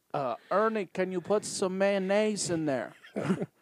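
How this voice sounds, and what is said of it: Inconsistent put-on accent. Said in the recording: “The accent is all over the place.”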